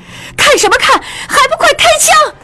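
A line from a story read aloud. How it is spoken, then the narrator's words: Shouting. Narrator (Chinese): 莲花大叫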